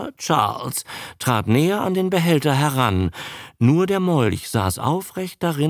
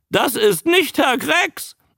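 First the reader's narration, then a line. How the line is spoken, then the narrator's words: Croaking voice. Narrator (German): sagte die krächzende Stimme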